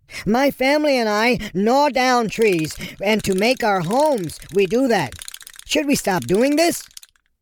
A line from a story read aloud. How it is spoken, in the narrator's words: Beaver shouted